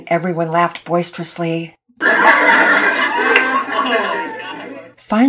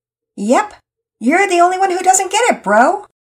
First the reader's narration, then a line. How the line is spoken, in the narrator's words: Pearson shouted out